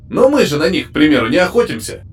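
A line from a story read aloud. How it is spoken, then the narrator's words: Grumbling. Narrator (Russian): проворчал Славик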